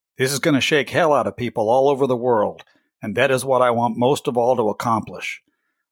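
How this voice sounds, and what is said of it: Bad John Wayne impression. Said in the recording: “a real bad impersonation of John Wayne”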